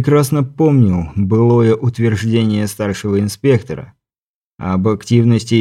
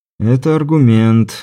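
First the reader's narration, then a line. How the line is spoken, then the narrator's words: Sighed. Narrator (Russian): вздохнул он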